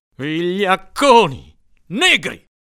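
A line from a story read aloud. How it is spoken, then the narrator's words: Father thundering angrily. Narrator (Italian): tuonava mio padre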